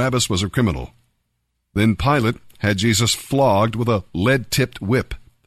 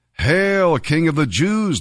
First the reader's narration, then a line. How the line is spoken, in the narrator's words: they mocked